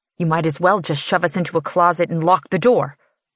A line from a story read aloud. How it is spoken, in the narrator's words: I snarl